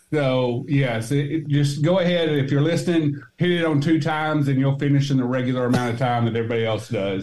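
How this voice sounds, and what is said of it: Arkansas Southern drawl. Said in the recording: “the Arkansas accent ... I have a little bit of a draw, you'll notice ... you grow up in Arkansas and they make fun of your accent”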